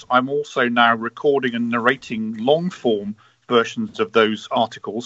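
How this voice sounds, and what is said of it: English accent. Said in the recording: “this English accent of mine ... it is that English accent”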